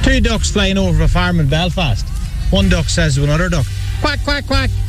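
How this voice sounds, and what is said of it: Regional accent suited to joke. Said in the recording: “accent is also spot on ... The ideal person, the ideal accent to deliver that joke”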